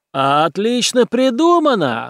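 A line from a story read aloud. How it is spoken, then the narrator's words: Yelling. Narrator (Russian): завопил Гуди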